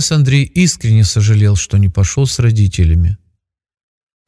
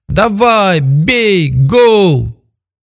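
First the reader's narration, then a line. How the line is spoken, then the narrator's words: Joyful crowd shouting. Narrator (Russian): Олег и Лилия веселились от души и кричали вместе со всеми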